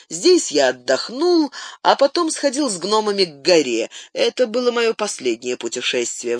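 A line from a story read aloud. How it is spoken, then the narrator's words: Sighing. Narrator (Russian): вздохнув, добавил он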